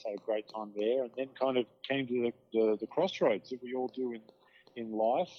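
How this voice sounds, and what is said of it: Australian accent. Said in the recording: “I obviously grew up in Australia. The accent probably gives it away”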